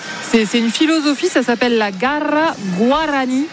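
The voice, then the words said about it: Put-on accent on a foreign name. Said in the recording (French): “Oh, et, accent. ... Il a été travaillé.”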